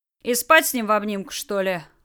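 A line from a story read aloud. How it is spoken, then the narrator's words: Snort. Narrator (Russian): фыркнул Толян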